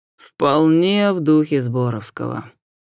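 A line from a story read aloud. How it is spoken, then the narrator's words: Lazy agreement. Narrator (Russian): лениво подтвердил профессор Присли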